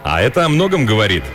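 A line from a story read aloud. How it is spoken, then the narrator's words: Cheerful. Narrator (Russian): весело добавил Риш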